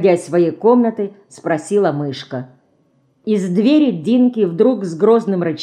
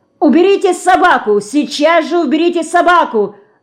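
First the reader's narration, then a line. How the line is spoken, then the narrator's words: Detective yelling. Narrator (Russian): закричал сыщик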